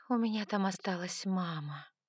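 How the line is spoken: Breathed out. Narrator (Russian): выдохнула

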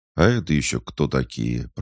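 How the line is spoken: Grumbled. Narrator (Russian): проворчал Хаджар

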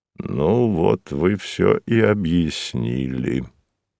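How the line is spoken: Said quietly. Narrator (Russian): сказал хозяин негромко

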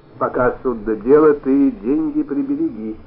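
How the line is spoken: Plain. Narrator (Russian): сказал Полич

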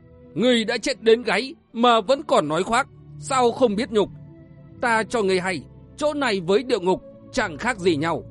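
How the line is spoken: Shrill hiss. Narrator (Vietnamese): Tụ bảo hội chủ rít lên the thé

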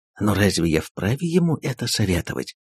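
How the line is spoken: Agitated whisper. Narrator (Russian): прошептал консул, взволнованно

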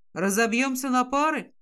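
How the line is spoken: Gloomy suggestion. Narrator (Russian): мрачно предлагает Стивен

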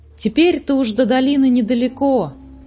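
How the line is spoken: Exclaimed. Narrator (Russian): воскликнул Муми-тролль

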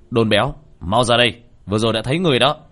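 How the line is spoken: Shout. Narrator (Vietnamese): Tiểu Thất quát

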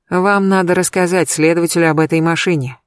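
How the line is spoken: Sighing. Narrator (Russian): вздохнула я

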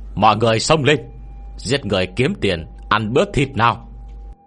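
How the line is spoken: Eager loud shout. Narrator (Vietnamese): Vị tướng quân lãnh binh nóng lòng lập công, hét lớn

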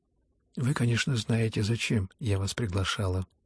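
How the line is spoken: Very quiet, halting. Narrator (Russian): выговорила наконец, но очень тихо и даже остановившись раза два на этой коротенькой фразе

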